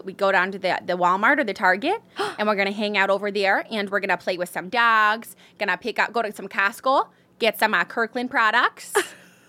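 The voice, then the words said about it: Put-on Midwestern American accent. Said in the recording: “The only one I'm like good at is like Midwestern.”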